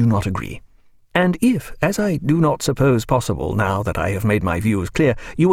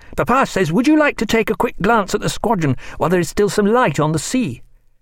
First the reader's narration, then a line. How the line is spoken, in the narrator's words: cried George